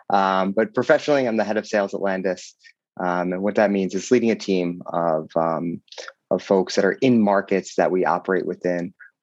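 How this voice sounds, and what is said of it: Slightly raspy voice. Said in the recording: “my voice is a little raspy ... They also bring home colds every now and then.”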